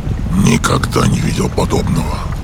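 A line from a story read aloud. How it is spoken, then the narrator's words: Quiet speech. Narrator (Russian): негромко произнес Дрорг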